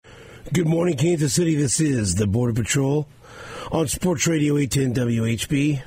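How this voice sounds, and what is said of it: Shredded, hoarse voice. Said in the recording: “my voice is shredded”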